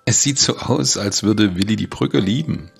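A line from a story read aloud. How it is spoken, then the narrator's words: Laughing. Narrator (German): sagte Becky lachend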